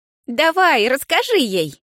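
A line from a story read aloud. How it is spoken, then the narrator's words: Giggling. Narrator (Russian): хихикнула подруга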